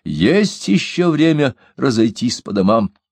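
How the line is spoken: Loud warning. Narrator (Russian): Он предостерегает их громким голосом

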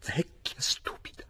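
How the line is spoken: Muttering. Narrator (Italian): borbottando

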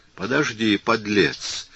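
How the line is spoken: Through gritted teeth. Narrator (Russian): промолвил он сквозь зубы

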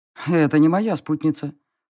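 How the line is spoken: Snorting. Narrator (Russian): хмыкнул фон Грейслинг

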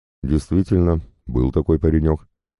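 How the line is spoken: Calm confirmation, chaplain. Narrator (Russian): подтвердил капеллан спокойным голосом

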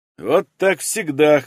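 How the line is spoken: Grunted. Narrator (Russian): хмыкнул Станов

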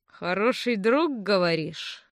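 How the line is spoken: Thoughtful drawl. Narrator (Russian): задумчиво протянул Франц

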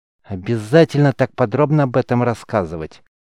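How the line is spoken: Through gritted teeth. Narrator (Russian): сквозь зубы встряла Бранда

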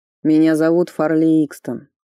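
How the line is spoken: Through gritted teeth. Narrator (Russian): процедил Фарли

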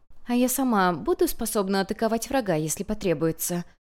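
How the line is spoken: Quiet question. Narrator (Russian): Так же тихо спросила Юнь-Юнь

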